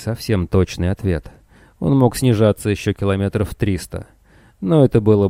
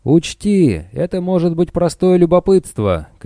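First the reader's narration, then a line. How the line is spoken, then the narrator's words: Uncertain shouting. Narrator (Russian): кричал, правда, без особой уверенности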